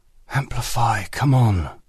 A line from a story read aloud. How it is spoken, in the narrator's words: whispered under his breath